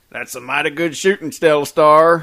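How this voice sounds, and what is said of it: Put-on cowboy accent. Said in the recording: “a dandy British accent wasn't good enough. Just go for a cowboy.”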